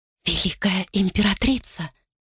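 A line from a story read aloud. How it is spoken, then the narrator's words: Whispered. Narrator (Russian): шепнула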